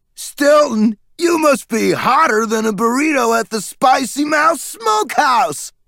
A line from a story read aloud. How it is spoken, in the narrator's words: he screeched, laughing